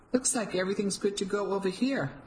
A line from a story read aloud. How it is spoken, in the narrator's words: I said to the two security guards, perhaps a little too brightly